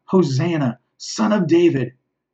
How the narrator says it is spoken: as the people have cried out

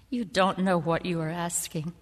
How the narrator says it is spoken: Jesus said

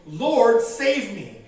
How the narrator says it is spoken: that he was afraid and began to sink, he cried out, saying

